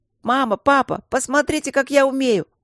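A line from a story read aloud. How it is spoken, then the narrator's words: Child shouting repeatedly. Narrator (Russian): старший Василь ежеминутно кричал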